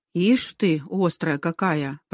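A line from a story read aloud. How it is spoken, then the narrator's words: Muttered. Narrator (Russian): пробормотала она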